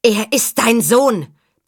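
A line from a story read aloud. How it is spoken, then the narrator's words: Bellowed. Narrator (German): brüllte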